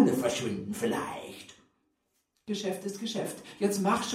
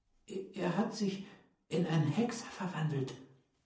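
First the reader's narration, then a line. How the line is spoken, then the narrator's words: Quiet. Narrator (German): sagte leise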